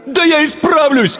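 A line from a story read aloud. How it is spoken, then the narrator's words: Desperate shout. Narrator (Russian): крикнул он с отчаянием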